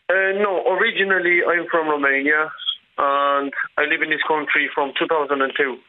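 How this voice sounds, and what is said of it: Non-local foreign accent. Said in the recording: “you're not originally from Blanchardstown, I'd say, with that accent”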